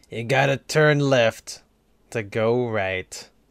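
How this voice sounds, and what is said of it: Imitates another person's voice. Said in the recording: “my impression of Paul Newman”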